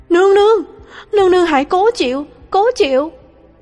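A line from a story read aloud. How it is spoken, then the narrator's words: Frantic cry. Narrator (Vietnamese): Lục Ly cuống quýt kêu lên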